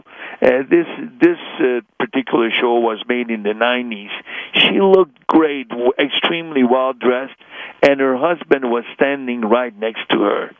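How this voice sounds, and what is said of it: Hungarian accent. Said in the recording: “by my accent, that I'm also Hungarian”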